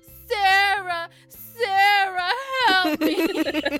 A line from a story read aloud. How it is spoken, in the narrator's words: scream